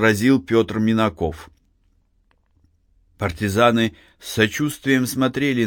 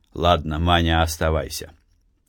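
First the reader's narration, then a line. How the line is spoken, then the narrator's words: Plain. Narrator (Russian): сказал он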